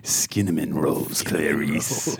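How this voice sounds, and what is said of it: Imitates a film villain's voice. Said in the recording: “Do my Hannibal Lecter voice.”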